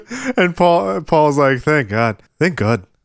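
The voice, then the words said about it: Imitates another person's voice. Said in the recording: “That's my impression.”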